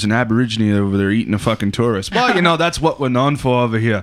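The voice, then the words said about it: Poorly done put-on accent. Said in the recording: “my accent was horrible”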